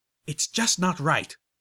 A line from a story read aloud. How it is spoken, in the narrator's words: the blue Pegasus spat with righteous indignation